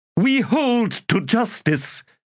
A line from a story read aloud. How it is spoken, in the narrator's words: Abrastal snapped